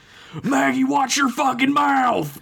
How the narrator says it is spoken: Dad screamed from the living room

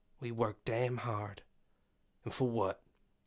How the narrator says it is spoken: she said quietly

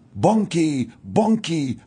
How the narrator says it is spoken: They shouted

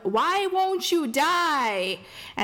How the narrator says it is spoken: Anya shouts at one

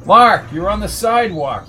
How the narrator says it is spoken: shouted Jones

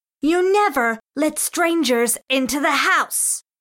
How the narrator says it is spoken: George shrieked

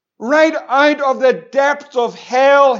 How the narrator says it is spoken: he cried

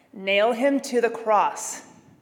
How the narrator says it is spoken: they shouted with one voice

